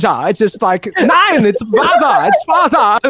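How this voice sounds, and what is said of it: Put-on German accent, admittedly weak. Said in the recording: “I promise I'll work on my German impression. I'll make it better.”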